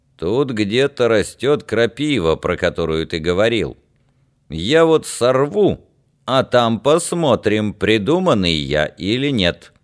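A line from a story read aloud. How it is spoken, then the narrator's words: Joking gruff deep voice. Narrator (Russian): Чтобы все сделать шуткой, Яр крякнул, как растерженный Дед Мороз, и пробасил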